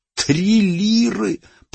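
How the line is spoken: Bewildered hoarse croak. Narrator (Russian): прохрипел с недоумением Яни

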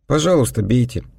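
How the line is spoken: Calm. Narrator (Russian): спокойно ответил я

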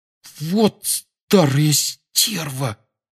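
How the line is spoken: Indignant whisper. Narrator (Russian): возмущенно прошептал Рон

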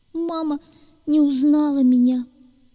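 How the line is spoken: Whimpering young creature. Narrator (Russian): захныкал зайчонок

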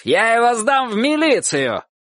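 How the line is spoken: Shout. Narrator (Russian): один из них крикнул тетушке

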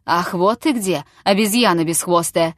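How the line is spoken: Thundering. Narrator (Russian): прогремел Чертабханов

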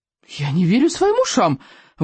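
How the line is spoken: Exclamation. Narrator (Russian): воскликнул он

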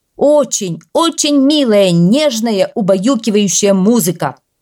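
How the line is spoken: Shouted reply. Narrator (Russian): прокричал в ответ премьер-министр

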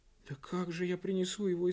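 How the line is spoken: Frightened exclamation. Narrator (Russian): испуганно воскликнула рваное ушко

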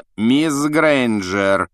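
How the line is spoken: Icy rebuke. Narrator (Russian): ледяным голосом осадил Гермиона Снег

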